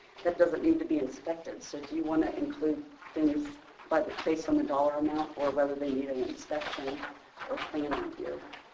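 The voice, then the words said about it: Hoarse, fading voice. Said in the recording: “Sorry, I'm losing my voice.”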